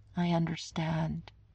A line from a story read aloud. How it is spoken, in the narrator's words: Steve said faintly